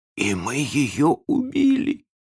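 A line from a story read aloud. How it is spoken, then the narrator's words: Hoarse. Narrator (Russian): сказал задавака хрипло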